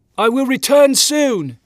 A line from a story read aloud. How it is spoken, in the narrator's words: John Williams yelled to the Achu Islanders